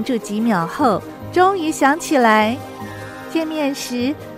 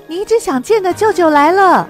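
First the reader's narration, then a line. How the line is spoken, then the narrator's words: Hurried. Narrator (Chinese): 妈妈匆匆忙忙说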